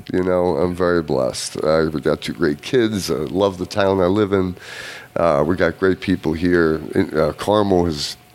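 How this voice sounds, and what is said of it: Mixed European accent. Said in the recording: “I was trying to figure out your accent ... That's a combination of European accents ... it's kind of a bastardization of everything”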